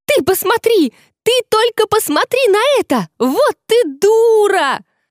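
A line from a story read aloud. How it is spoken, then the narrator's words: Loud yell. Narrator (Russian): завопила громкоголосая фея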